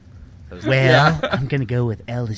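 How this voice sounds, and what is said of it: Creepy get-in-my-van character voice. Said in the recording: “That's not the smart voice. ... I don't know what voice that is. ... That's the get in my van voice.”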